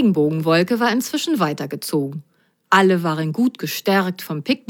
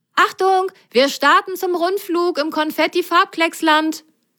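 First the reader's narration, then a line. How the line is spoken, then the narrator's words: Called over shoulder. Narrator (German): rief Grasgrün über die Schulter seinen Passagieren zu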